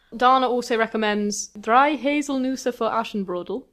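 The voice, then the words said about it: Attempted German accent. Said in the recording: “That was my best German accent. ... Great German, by the way.”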